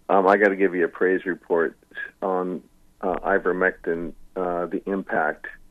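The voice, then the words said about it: Choked up, emotional voice. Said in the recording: “I'm getting a little bit choked up because it's reminiscing”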